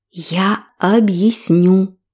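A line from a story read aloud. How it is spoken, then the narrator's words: Silently mouthed. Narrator (Russian): одними губами прошептала Энтони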